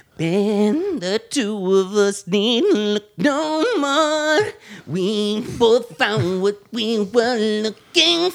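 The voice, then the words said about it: Sung imitation of another singer's voice. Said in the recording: “you do a good Michael Jackson”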